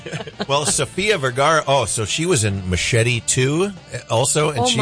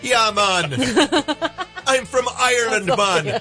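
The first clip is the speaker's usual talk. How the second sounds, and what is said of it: Attempted Irish accent drifting Jamaican. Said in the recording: “how a New Zealand or an Australian accent or an Irish, you know, it's not always easy ... They all drift towards Jamaican ... Everything comes out.”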